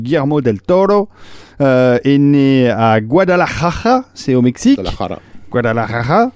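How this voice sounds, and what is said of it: Exaggerated Mexican Spanish pronunciation. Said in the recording (French): “ton, accent mexicain, espagnol ... mexicain, est pire que mon accent.”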